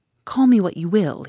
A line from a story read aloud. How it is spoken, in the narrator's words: he said